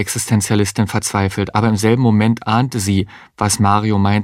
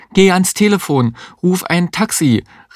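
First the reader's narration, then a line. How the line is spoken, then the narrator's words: Called out. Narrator (German): rief die Existenzialistin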